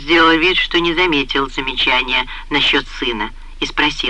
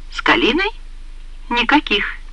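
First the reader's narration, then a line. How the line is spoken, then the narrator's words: Calm. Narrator (Russian): спокойно ответила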